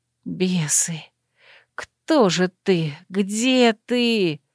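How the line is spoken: Whisper. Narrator (Russian): шептала я

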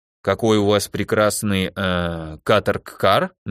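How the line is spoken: Uncertain half-question. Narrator (Russian): не то спросил, не то сказал Верховный неуверенно

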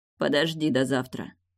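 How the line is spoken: Heavy sigh. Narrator (Russian): тяжело вздохнул Мортон

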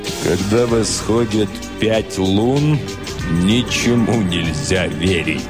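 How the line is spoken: Sepulchral voice. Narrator (Russian): сказал суперинтендант Флинт за могильным голосом

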